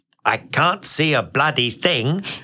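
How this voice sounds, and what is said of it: Imitates another person's voice. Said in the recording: “You really enjoyed doing that impression”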